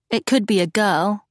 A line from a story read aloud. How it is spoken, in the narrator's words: Charlotte murmured